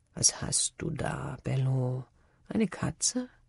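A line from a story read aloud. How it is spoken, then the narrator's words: Murmur. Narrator (German): murmelte Brandis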